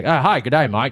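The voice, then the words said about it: Put-on Australian accent. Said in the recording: “I sound like an Australian.”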